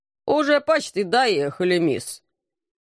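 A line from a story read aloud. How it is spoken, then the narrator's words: Displeased grumble. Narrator (Russian): недовольно проворчал извозчик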